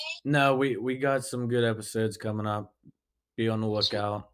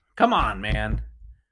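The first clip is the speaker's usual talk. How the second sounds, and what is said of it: Imitates another person's voice. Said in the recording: “That was my Biden impression.”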